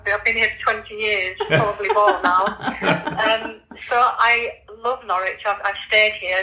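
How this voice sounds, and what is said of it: Leeds Yorkshire accent. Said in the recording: “So you might tell from my accent, I come from Leeds originally. ... That's not an accent that you easily get rid of.”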